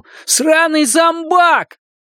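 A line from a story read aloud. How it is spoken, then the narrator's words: Shout. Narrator (Russian): Самый храбрый, пятясь за угол, крикнул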